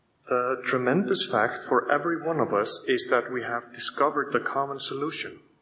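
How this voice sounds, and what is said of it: Speaks English with an accent. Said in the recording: “sorry for my accent”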